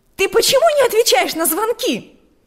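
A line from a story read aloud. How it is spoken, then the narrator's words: Shouted. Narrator (Russian): закричала она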